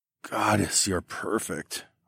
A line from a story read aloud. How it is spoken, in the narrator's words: I moaned